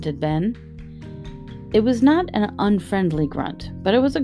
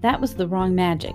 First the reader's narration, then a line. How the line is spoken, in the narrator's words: he said